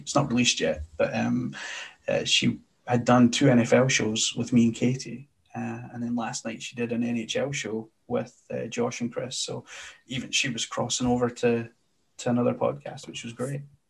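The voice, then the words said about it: Scottish accent. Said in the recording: “your Scottish accent helps too, because I could listen to ... it all day ... we just want to hear the Scottish accent”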